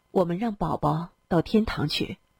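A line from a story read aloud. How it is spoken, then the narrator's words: Low voice. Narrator (Chinese): 欧阳春楚低声说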